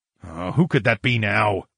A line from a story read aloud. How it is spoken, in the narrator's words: I grunted